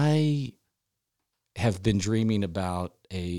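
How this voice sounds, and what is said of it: Usual voice. Nothing is said of it.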